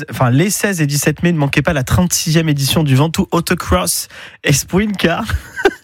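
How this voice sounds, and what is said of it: Put-on accent. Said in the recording (French): “J'en ai marre de mon accent.”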